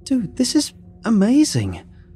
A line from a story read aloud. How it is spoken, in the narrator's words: I blurted out